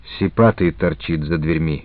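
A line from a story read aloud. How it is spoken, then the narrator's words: Low voice. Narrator (Russian): сказал вполголоса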